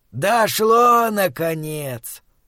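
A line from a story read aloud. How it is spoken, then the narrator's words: Tired speech. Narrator (Russian): устало проговорил Схал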